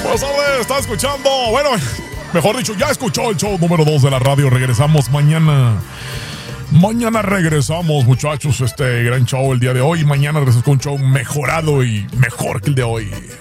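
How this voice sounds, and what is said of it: Radio announcer voice. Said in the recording (Spanish): “Voz de locutor, pues, de locutor.”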